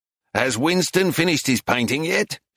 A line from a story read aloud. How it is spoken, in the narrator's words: growled